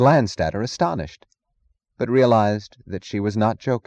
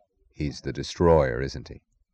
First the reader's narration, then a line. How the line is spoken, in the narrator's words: he said softly, with a glance that was almost compassion